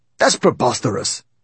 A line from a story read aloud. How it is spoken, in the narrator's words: exclaimed Igor, expelling saliva as he spoke